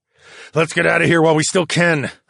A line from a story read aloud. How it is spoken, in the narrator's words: I grunted